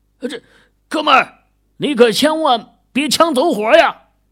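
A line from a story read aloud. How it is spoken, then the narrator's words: Roaring threat. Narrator (Chinese): 狐狸冲着对面的狂风吼道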